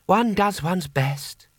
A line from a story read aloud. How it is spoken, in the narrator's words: he sighed